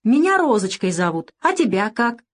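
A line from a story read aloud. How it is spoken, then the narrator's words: Spontaneous childlike exclamation. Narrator (Russian): со всей непосредственностью воскликнула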